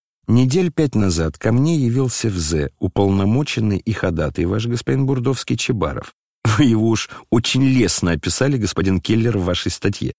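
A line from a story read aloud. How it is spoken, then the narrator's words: Sudden laughing address. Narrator (Russian): обратился князь, вдруг засмеявшись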